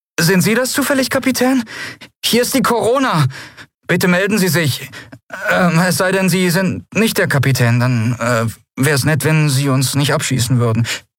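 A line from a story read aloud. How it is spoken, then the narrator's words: Nervous question. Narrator (German): eine nervöse Stimme fragte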